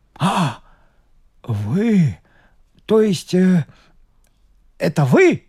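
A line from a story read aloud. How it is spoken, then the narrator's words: Exclaiming. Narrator (Russian): воскликнул Булыга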